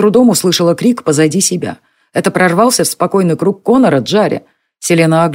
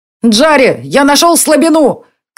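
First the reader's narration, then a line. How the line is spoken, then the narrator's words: Boy shouting. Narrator (Russian): крикнул мальчишка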